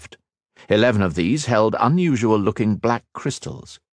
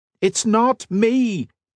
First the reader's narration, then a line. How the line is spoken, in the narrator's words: Cat shouted, but only the dragon's call came out